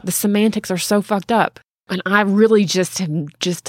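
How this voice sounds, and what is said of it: Southern US accent. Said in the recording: “talking like a Southerner right now. Jesus Christ, my accent is coming out... Triggered by rage... talk like a fucking hick”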